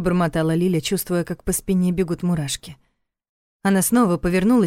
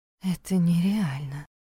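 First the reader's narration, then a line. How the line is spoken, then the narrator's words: Self-reassuring whisper. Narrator (Russian): прошептала Лиля, убеждая себя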